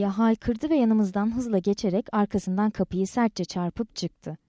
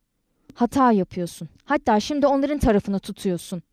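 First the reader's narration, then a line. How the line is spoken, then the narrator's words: Angry, scowling. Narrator (Turkish): Yüzünü öfkeyle kırıştırarak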